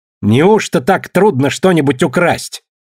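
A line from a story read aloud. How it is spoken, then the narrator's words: Defiant shout. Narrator (Russian): вызывающе крикнула Мэри паромщица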